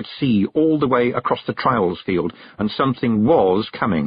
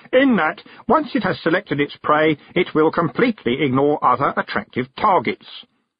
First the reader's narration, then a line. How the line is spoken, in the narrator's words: It went on in its self-satisfied squeak